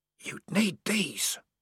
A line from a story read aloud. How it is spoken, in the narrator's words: whispered the voice